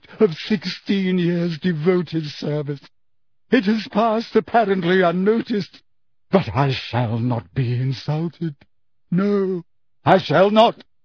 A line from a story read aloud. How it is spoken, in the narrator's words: she choked